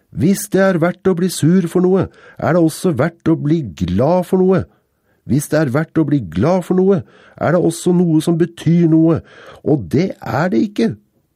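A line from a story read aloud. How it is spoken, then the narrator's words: Roared, voice raised further. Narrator (Norwegian): Han hevet stemmen enda et hakk og brølte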